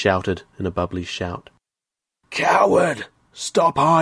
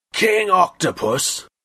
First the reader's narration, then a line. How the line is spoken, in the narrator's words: Daku Waka roared